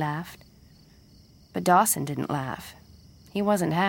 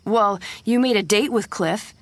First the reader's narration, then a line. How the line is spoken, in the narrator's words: he said angrily